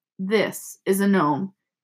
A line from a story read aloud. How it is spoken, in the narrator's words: he said grimly